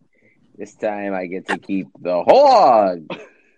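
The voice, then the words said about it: Exaggerated put-on Jewish accent. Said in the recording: “do this offensive Jewish voice?”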